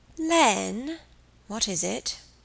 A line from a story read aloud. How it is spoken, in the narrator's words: he asked, a little wearily, for she had only one topic of conversation when she sat upon his knee